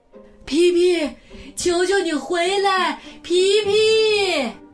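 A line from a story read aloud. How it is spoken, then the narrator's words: Father shouting. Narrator (Chinese): 他的爸爸对他喊着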